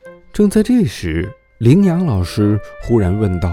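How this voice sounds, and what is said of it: Usual voice. Nothing is said of it.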